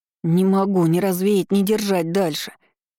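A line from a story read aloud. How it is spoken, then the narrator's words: Moaning. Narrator (Russian): простонал Оливер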